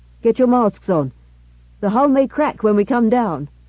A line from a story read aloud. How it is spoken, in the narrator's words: Then the pilot called out over his shoulder